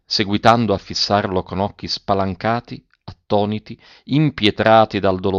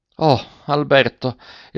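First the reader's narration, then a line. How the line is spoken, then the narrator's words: Muffled despairing voice. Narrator (Italian): esclamò la derelitta con voce sorda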